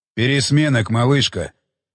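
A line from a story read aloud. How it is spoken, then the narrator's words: Hoarse wheeze. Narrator (Russian): прохрипел голос Уилсона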